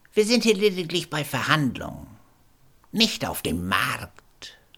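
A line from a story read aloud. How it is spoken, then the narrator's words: Indignant, suppressing a purr. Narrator (German): entrüstete sich der Sachverständige und unterdrückte sein Schnurren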